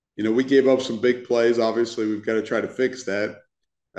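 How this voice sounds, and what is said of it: Congested, stuffy-nosed voice. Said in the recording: “I've got a little bit of a cold”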